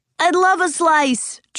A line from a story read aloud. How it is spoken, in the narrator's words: George exclaimed